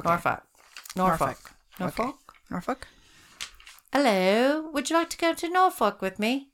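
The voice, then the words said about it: Put-on British accent. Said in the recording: “I sounded just like a British person, didn't I?”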